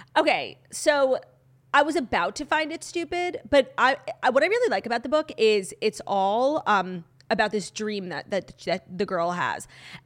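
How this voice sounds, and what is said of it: Slightly hoarse voice. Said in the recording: “my voice sounds like a little hoarse ... because I was up all night crying again”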